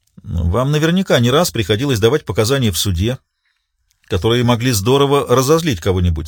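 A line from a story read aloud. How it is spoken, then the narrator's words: Plain. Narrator (Russian): сказал Риццоли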